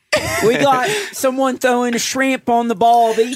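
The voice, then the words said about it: Put-on Australian accent. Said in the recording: “them in your Australian accent ... such a good accent ... It's more ... nasally”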